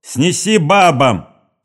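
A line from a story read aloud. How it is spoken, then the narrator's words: Officer shouting. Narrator (Russian): крикнул офицер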